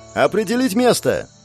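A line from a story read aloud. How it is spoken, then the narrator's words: Loud cry. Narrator (Russian): В голос выкрикнул я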